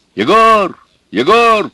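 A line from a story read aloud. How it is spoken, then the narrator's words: Shout. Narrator (Russian): кричал Федор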